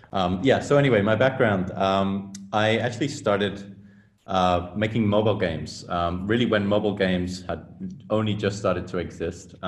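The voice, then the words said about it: English accent with international sound. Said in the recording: “I'm from England, but my accent might not make that super clear because it's kind of morphed over the years into something a little bit more international sounding”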